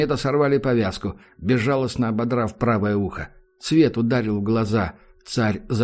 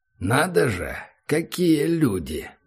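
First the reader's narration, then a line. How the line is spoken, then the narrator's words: Mocking drawl. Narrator (Russian): протянул Ахмед с издевкой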